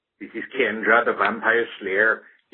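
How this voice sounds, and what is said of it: Exaggerated Irish-sounding put-on accent. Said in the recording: “my outrageous accent ... Why does ... sound Irish?”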